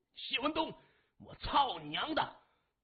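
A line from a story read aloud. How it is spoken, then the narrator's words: Stunned, furious roar. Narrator (Chinese): 麻风的脑袋嗡了一声，心中如同翻江倒海，对着电话大吼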